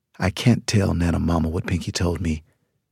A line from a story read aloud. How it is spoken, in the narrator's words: I said quietly